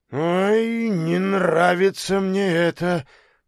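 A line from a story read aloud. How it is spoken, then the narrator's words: Mumbling. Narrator (Russian): пробормотал Антон Антонович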